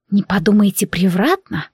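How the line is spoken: Breathless whisper. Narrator (Russian): прошептала Феодора, затаив дыхание

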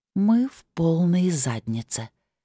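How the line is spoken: Slow. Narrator (Russian): медленно произнесла Лилит

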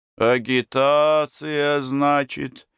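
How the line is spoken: Sad question. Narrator (Russian): спросил Горович грустно

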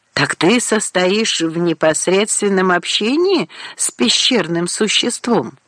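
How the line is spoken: Plain. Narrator (Russian): сказала Боль

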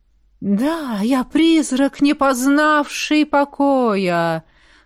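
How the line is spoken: Drawn-out sepulchral voice. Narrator (Russian): протянула я за могильным голосом

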